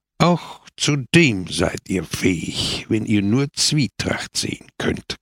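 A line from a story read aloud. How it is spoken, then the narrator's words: Growling. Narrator (German): knurrte Pepone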